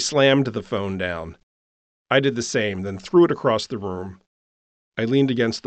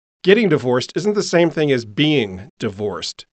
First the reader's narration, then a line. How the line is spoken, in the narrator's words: snapped